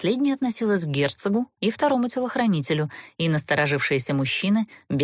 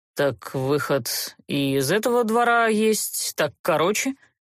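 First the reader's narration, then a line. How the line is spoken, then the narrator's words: Gloomy remark. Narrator (Russian): мрачно обронил герцог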